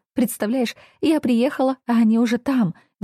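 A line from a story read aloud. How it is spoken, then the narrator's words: Excited rapid chatter. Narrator (Russian): взволнованно тараторила Стася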